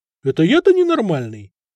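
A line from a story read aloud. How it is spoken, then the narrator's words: Loud laughter. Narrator (Russian): захохотал Надир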